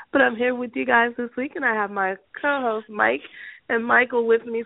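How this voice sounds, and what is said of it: Sick, weird-sounding flu voice. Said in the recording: “your very ill with the flu host ... I sound a little weird ... I sound like I'm dying”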